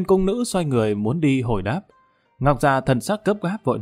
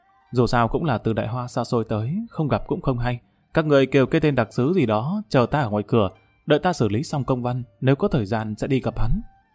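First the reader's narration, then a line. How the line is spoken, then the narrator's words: Flushed, low voice. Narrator (Vietnamese): Kim Đào Khả Hãn mặt mũi đỏ bừng nhỏ giọng nói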